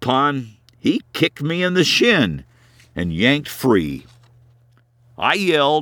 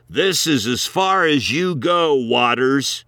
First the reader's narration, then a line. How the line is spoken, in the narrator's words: growled